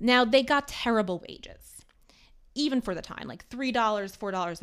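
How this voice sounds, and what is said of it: Usual voice. Nothing is said of it.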